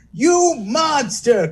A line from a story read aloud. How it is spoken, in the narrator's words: cried, his mustache flittering